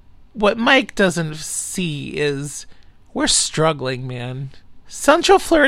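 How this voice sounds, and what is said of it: Usual voice. Nothing is said of it.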